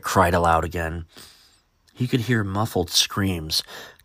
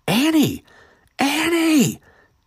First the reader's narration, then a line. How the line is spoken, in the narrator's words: Eric cried as the scarf was no longer visible and had sunk all the way beneath the earth